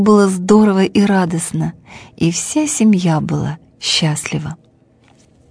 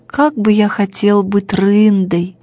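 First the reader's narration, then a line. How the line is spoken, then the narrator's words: Sad sighing. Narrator (Russian): вздыхал грустно Бим-Бим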